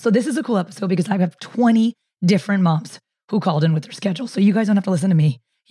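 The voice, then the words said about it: Hoarse, strained voice. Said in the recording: “Sorry about my voice. I'm struggling hard. I get laryngitis”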